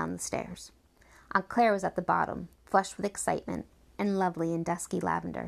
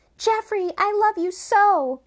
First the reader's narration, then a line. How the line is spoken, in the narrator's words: Batty cried